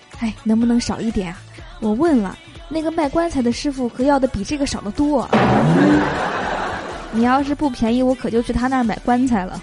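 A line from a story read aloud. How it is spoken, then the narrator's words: Low haggling. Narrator (Chinese): 富翁低声讲价说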